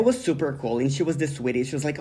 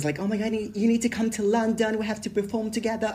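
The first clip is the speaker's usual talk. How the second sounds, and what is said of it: Put-on accent imitating another person. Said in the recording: “her accent. Girl, I love the accent that you did.”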